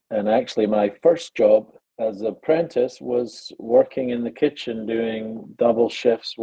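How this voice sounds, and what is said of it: Scottish accent. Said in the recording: “as you probably gathered from the accent, I am not from the United States or Alabama. I'm from a little town called Pennycook in Scotland, just outside Edinburgh”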